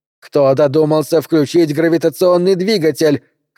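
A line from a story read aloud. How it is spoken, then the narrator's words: Shouting. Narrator (Russian): кричала Катрина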